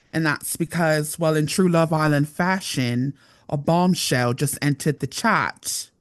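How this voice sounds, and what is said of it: Slight put-on accent. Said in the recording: “you may notice this little accent that I've got”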